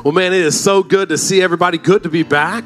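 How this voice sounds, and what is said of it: Voice sounds off, unwell. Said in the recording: “As you can hear, my voice is a little out there.”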